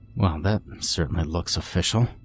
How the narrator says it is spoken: muttered half-heartedly, unsure of why I was even humoring him

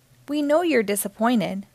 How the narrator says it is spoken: said Daddy

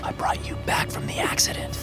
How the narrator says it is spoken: I whispered

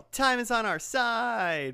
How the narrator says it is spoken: they yell

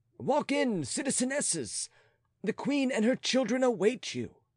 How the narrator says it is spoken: he cried

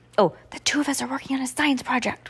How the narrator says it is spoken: whispered Heidi

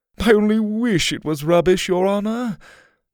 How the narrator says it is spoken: he added in a fake helpless tone

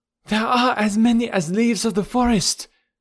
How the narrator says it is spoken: cried one of the women, in attempting to explain the enemy's force

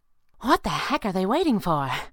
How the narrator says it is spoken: the flying squirrel said breathlessly

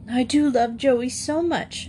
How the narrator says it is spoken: said in a quivering voice

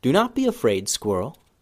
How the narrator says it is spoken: Ben Ben said softly

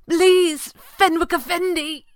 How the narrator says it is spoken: cried

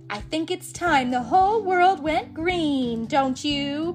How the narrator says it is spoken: Poison Ivy cackled

